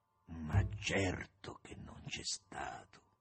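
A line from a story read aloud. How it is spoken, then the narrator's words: Hoarse reply. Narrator (Italian): risponde con voce roca il compagno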